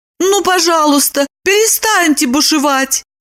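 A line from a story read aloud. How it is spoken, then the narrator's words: Pleading. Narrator (Russian): взмолилась она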